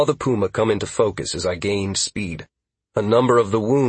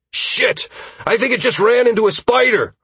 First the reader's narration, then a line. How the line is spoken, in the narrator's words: I practically shouted at Caius